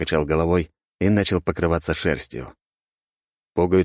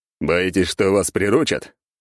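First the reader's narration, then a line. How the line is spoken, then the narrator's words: Snorting reply. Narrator (Russian): хмыкнул в ответ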